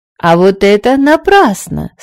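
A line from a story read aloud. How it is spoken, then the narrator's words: Triumphant exclamation. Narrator (Russian): с торжеством воскликнула королева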